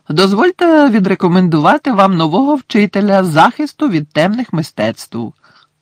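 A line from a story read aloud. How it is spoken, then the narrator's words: Cheerful in silence. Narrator (Ukrainian): весело пролунали в тиші Дамблдорові слова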